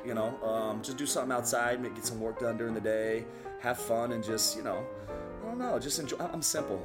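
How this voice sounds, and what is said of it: Strong non-native accent. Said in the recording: “It's that crazy accent I have.”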